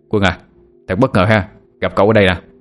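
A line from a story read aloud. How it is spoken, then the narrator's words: Smiling. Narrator (Vietnamese): Anh ta mỉm cười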